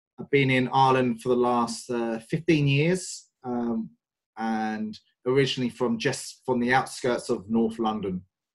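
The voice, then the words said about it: English accent. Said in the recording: “As you can probably tell from my accent, I'm not Irish. I'm very English.”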